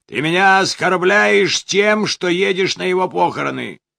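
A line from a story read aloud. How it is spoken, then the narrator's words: Shout. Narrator (Russian): крикнул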